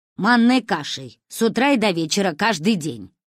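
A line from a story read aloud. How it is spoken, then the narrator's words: Barking grandmother. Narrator (Russian): рявкнула Ба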